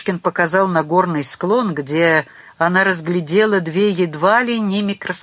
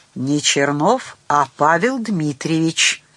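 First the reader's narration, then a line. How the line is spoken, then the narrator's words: Sternly corrected. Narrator (Russian): грозно поправил его Герман Фомич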